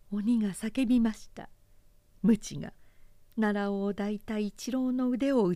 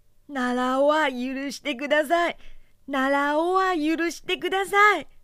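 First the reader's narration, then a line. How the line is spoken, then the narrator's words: Crying shout. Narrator (Japanese): 一郎は泣いて叫びました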